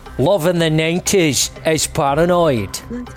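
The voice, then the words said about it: Put-on Glasgow accent. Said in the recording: “I'm going to do a different regional accent for every lyric ... I'm going to work my way from north to south down the UK ... So up we go to Glasgow.”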